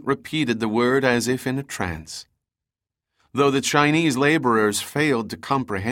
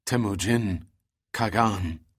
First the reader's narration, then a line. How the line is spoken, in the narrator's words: Sendin replied, choking the words out in a hushed tone of reverence